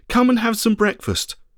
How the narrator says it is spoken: Jesus called out

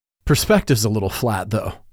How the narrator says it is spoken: he chuckled

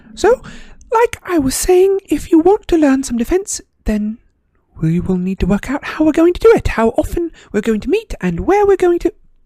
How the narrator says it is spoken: said Hermione, her voice very high-pitched again

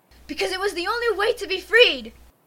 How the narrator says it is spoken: She shouts

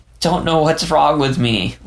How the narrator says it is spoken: Leo whimpered, body shivering for a moment

